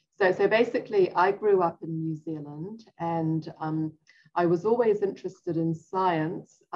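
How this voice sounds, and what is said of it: New Zealand accent. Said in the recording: “my accent that I'm not a native Texan ... I started off in New Zealand”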